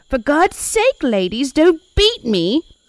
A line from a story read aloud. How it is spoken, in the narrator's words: she cried